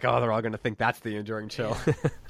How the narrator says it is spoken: O'Connor chuckling and being like

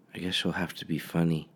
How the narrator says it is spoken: Mindy whispered

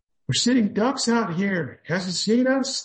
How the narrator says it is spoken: Lem screamed

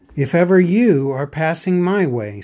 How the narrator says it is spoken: said Bilbo

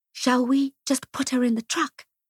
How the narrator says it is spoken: I whispered to Clara

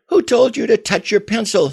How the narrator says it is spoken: screamed yet another of the soldiers

